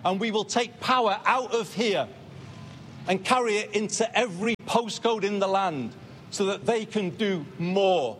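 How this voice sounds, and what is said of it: Northern English accent. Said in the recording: “Burnham is the first Prime Minister with a north of England accent in 50 years”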